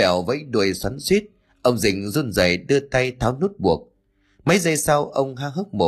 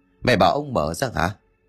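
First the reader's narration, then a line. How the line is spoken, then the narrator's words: Muttering. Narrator (Vietnamese): Ông Dinh trong mày lẩm bẩm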